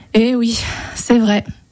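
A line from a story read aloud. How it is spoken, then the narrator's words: Sighing. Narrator (French): soupira le chasseur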